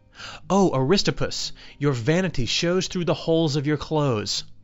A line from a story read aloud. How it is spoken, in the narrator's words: When Socrates saw him arrive at his house, he exclaimed